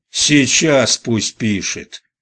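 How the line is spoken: Barked. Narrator (Russian): рявкнул Насенко

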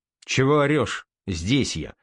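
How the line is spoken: Calm officer replying. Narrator (Russian): спокойно отозвался сотник корабелов

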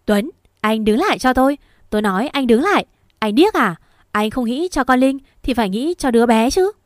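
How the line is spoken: Shouting. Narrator (Vietnamese): Còn Quỳnh hét lên

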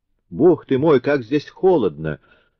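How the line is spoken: Exclaiming. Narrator (Russian): воскликнула Козетта

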